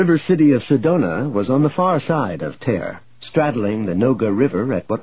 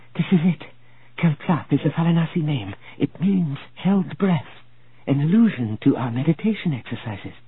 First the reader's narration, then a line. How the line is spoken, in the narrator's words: she whispered